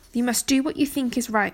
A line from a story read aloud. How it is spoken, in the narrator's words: Merlin replied